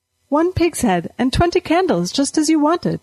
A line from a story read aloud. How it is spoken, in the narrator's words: she said brightly